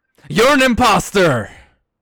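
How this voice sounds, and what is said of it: Yelling. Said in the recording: “Why are you yelling”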